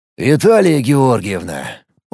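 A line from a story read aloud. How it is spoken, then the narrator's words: Police officer's weary sigh. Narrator (Russian): устало вздохнул участковый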